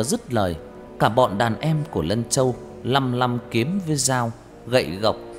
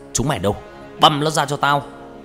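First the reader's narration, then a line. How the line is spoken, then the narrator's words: Furious shout. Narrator (Vietnamese): Lân Châu như không nuốt nổi cái cục tức, hắn quát lên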